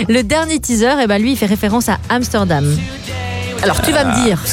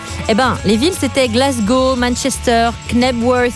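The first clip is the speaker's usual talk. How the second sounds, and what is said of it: English accent on place names. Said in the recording (French): “Il rigole de mon accent anglais.”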